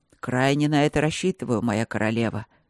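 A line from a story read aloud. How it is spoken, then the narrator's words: Growl. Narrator (Russian): рыкнул Берман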